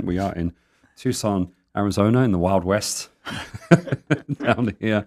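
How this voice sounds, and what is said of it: Accent not typical of Arizona. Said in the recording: “Don't be fooled by my accent.”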